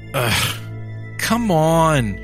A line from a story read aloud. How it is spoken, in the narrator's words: she groaned